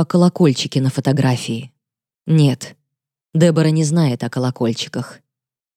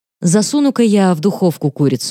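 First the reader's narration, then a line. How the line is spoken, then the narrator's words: Casual suggestion. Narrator (Russian): небрежным тоном предлагаю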